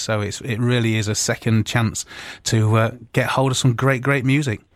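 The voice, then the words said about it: British accent. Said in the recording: “that beautiful accent”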